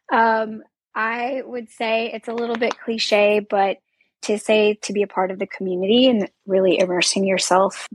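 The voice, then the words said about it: Voice sounds impaired. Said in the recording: “sorry about my voice.”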